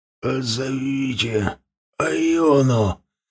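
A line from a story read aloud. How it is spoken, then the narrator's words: Hoarse whispered plea. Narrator (Russian): хриплым шепотом попросил он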